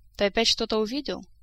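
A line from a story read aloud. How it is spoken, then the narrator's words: Weary question. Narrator (Russian): устало поинтересовалась Тереза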